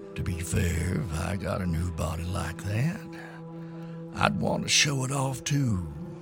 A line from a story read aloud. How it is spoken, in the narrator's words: old Green Eyes said with a grim chuckle